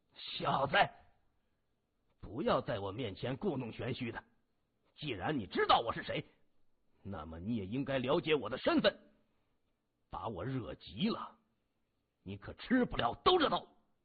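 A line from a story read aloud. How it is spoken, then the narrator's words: Angry cursing. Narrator (Chinese): 余广闻言脸色大变，怒声骂着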